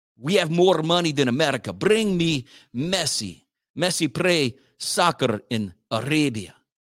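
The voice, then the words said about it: Put-on Saudi Arabian accent, weak. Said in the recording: “See, I'm not good at impressions. That's my Russian impression, and then that's my Saudi Arabian impression.”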